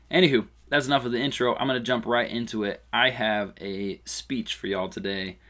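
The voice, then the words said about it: Tired, choppy voice. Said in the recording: “I'm a little tired... a little tired today, so my voice sounds a little choppy”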